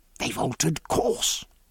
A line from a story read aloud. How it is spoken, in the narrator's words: Jack whispered